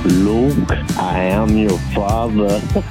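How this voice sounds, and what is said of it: Darth Vader character voice. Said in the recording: “your Darth Vader impression? ... That sounded more like Garth Vader than Darth Vader.”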